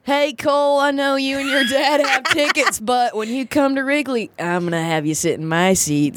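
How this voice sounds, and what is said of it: Generic baseball player voice impression. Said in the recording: “good Jon Lester impression that was? that was so good. That's exactly what he sounds like ... just my generic baseball baseball man ... what does it sound like when someone maybe had dip in their mouth at some point in their life?”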